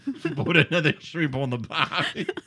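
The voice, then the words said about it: Put-on Australian accent. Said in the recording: “That's a world-class Australian accent. ... That was accent. Pretty good.”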